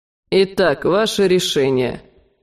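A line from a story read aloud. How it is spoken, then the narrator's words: Mocking question. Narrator (Russian): насмешливо глянув на меня, спросил граф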